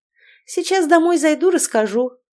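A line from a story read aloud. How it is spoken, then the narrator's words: Tired remark. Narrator (Russian): устало обронила Инна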